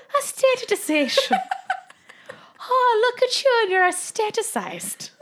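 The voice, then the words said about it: Put-on Irish accent. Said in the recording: “Now I'm Irish.”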